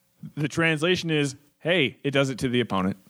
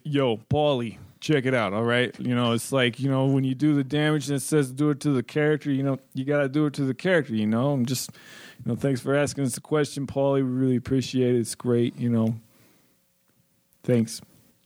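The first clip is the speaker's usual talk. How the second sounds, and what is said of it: Rocky character impression voice. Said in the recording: “That's my Rocky impression. ... Can you translate that to English?”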